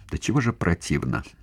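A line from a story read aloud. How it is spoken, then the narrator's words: Mumble. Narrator (Russian): пробормотала она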